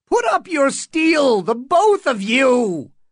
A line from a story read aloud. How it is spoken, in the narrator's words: Butterwell screeched